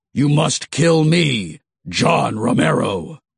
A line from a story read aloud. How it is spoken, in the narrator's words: the voice bellowed